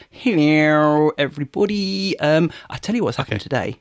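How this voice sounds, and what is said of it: Weird put-on accent. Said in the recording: “That's not upping it. That's just doing weird accents.”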